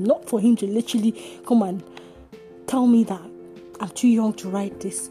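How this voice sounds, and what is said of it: Speaks with a non-native accent. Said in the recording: “my accent”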